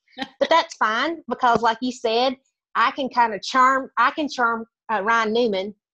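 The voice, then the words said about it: Country accent. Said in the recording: “my accent. People assume that I'm just a country hick.”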